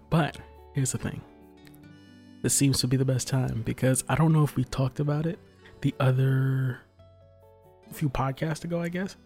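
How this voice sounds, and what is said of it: Soft, quiet radio voice. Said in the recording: “I've got my soft radio voice on, as my papa is sleeping”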